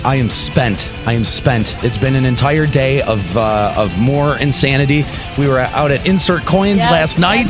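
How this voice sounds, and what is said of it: Exhausted, tired voice. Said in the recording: “If you can't hear it in my voice, I am flat out exhausted.”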